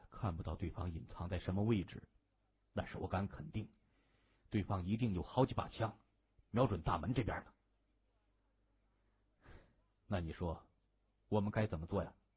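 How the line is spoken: Low voice. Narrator (Chinese): 田启……才低声说

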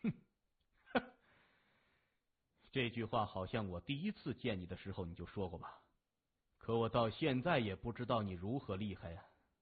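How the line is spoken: Loud, laughing. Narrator (Chinese): 谢文东仰面而笑，大声说

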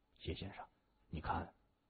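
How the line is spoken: Low-voiced question. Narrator (Chinese): 宋卓也感觉这个价格有点高，低声问他

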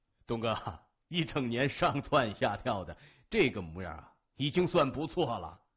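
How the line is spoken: Self-mocking, resigned. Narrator (Chinese): 刘波自嘲的一笑，无奈的说

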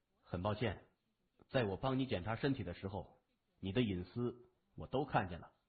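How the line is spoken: Flat, cool voice. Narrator (Chinese): 用那种淡淡的声音说

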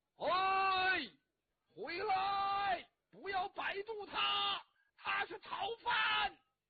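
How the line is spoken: Shouting. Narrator (Chinese): 魏文通站在河边上，冲着那个少公就喊

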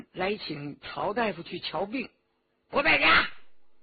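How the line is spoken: Restrained anger. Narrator (Chinese): 周启大怒，忍着气说

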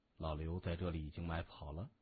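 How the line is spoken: Quiet cheerful question. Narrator (Chinese): 谢文东笑呵呵的低声问

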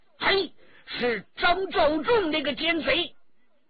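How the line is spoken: Loud shout. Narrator (Chinese): 魏春华大叫

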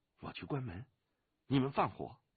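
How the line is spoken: Low voice. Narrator (Chinese): 他……低声地说

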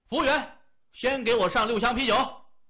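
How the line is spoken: Shouting. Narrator (Chinese): 他大喊

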